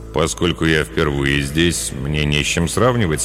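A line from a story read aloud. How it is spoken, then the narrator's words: Calm answer. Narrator (Russian): спокойно ответил Тафф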